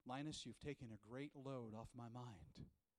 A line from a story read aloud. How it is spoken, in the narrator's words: Lucy sighs, and she says